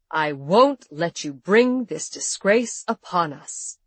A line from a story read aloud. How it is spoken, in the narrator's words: he thundered